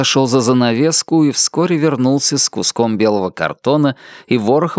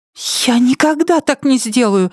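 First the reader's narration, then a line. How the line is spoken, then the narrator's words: Cried out. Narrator (Russian): вскрикнула Нетти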